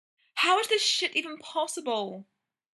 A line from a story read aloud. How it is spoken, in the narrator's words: Brendan moaned